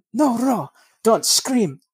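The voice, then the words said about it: Unconvincing attempted German accent. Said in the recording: “That doesn't sound German either. I need to work on my German accent.”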